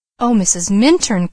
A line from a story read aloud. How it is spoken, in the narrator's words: exclaimed Leslie